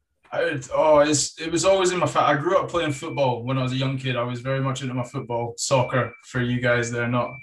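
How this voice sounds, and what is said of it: Scottish accent. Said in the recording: “I'm adopted Scottish ... moved up here when I was young and then picked up the accent”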